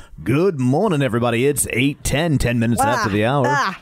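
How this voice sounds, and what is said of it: Imitated announcer voice. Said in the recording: “announcer voice”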